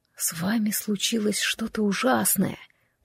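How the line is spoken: Whisper. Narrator (Russian): прошептал

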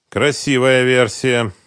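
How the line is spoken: Gloomy. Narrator (Russian): мрачно произнес Концевич

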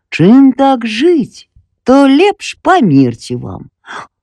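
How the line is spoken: Smiling old voice. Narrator (Belarusian): стары дуб усміхнуўся і сказаў

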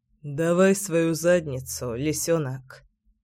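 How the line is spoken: Quiet husky rumble. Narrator (Russian): Негромко, с хрипотцой, пророкотал Кирилл

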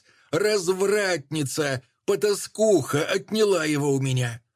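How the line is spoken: Shrieking at full voice. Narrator (Russian): та визжала во весь голос

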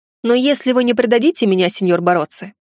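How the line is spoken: Amused snort. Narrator (Russian): хмыкнул я

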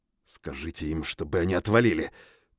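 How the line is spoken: Through clenched teeth, restrained. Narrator (Russian): процедил я, стараясь взять себя в руки

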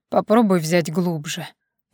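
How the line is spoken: Hoarse, rector. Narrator (Russian): прохрипел ректор

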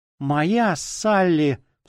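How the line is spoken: Grieving woman sobbing. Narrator (Russian): всхлипывала светловолосая женщина в черном траурном костюме

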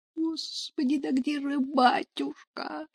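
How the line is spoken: Moan. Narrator (Russian): простонала Параша

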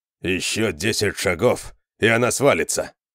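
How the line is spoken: Grumbling. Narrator (Russian): проворчал Конан

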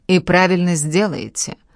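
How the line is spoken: Grumbled. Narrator (Russian): буркнула

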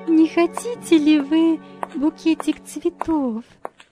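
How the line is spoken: Timid apologetic question. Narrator (Russian): робко спросила она, как бы извиняясь

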